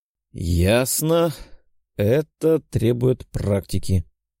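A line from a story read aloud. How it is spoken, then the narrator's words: Drawled. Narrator (Russian): протянул я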